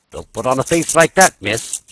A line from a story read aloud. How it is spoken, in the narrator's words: she said sharply on seeing Laura's air